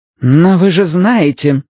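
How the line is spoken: Grim. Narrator (Russian): сказала мрачно

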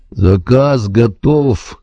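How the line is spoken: Gloomy repetition. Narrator (Russian): мрачно повторяет Альбин

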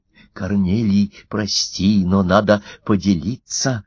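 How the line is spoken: Loud whisper. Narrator (Russian): громко прошептал Лев Христофорович

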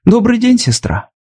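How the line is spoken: Cheerful. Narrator (Russian): Роуз весело сказала

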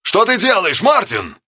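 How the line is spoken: Distant-sounding shout. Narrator (Russian): кричал полковник Яролимек, такой близкий и такой бесконечно далекий

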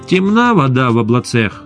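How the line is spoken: Angry pronouncement. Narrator (Russian): Аналитики зло изрекали

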